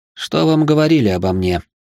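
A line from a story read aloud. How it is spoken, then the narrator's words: Calm cat asking. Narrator (Russian): спокойно спросил кот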